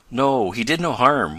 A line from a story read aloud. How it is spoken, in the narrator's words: went on Tom, in a reassuring tone